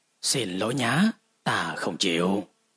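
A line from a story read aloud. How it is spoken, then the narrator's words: Cool, indifferent reply. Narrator (Vietnamese): Mục Trần chỉ mỉm cười, nhàn nhạt cất giọng trả lời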